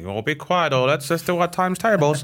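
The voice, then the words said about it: Bad impression of a teacher. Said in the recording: “that's Mrs. Robbins. That's, yeah. That's a bad impression.”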